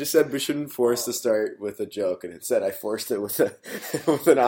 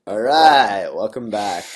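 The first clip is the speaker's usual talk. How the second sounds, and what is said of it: Matthew McConaughey impression. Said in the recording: “your best Matthew McConaughey impression”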